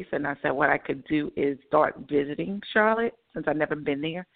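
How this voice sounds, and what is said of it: North Carolina accent. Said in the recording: “You almost sounded like you live there ... I heard that North Carolina kind of accent.”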